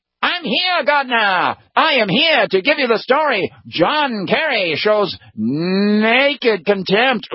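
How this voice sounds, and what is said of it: 1930s-40s newsreel announcer voice. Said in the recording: “try to do a really good impression of him ... newsreel footage guy coming in from the 1930s and 40s”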